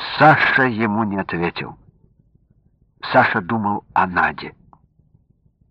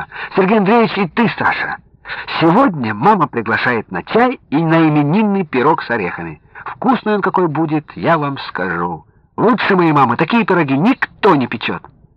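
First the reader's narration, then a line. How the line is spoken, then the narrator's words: Breathless cheerful chatter. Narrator (Russian): запыхавшаяся Надя и весело затараторила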